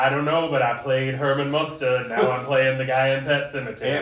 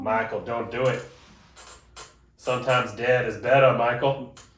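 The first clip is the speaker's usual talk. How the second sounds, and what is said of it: Put-on New England accent. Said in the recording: “Great New England accent, too”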